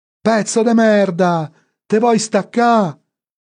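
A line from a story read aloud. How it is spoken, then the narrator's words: Distant yelling. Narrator (Italian): sentì urlare Franco in lontananza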